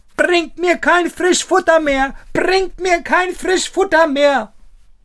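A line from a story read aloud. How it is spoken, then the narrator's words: Called out again. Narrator (German): rief Daumestick aufs Neue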